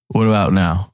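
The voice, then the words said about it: Deliberately deepened voice. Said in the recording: “If that's how deep it's going to be”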